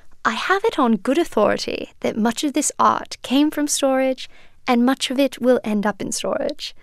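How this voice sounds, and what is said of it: Imitated posh British accent. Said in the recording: “this dapper British gentleman ... You absolutely have to do the accent right now. ... That is not bad.”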